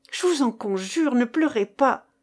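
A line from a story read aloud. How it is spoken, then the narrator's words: Exclaiming. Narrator (French): s'écria-t-il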